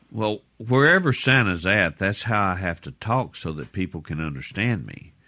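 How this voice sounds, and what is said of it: Southern American accent. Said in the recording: “it sounds like Santa kind of has a southern accent”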